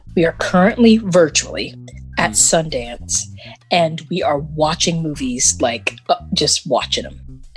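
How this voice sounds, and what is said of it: Whispering. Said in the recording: “I don't know why I'm whispering, but I feel like I have to.”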